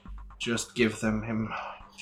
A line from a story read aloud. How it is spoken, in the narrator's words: he's just gonna kind of mumble